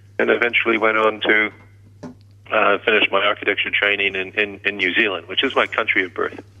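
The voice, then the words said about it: Slight Canadian twang. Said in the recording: “a slight Canadian twang”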